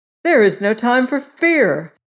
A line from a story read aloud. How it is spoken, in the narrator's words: he cried out